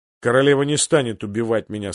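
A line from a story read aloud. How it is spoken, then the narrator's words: Plain. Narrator (Russian): сказал Нед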